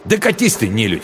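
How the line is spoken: Angry snapping retort. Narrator (Russian): зло огрызнулся он

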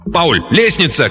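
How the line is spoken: Instinctive shout. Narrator (Russian): крикнул Рэнс раньше, чем сам осознал, что что-то заметил

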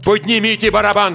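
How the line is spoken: Shout. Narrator (Russian): закричал я

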